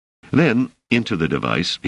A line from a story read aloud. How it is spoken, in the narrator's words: he said more firmly than ever